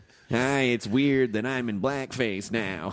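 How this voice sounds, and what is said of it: Imitates another person's voice. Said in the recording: “your impression ... That's Jack Nicholson playing the president”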